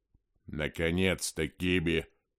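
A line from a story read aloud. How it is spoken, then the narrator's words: Grumbling. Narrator (Russian): проворчал архивариус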